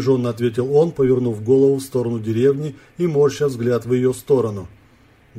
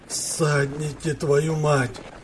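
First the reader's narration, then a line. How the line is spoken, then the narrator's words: Angry growl. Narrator (Russian): прорычал озлобленный Яков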